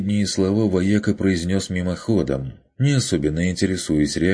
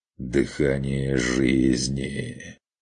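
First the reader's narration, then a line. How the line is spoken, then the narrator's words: Blissful drawl. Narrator (Russian): Блаженно протянул заботливый владелец уникальной кобылы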